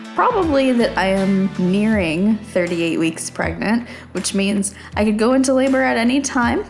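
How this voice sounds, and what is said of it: Strained voice with a cold. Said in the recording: “my voice is struggling. I am struggling a little bit because I have a cold.”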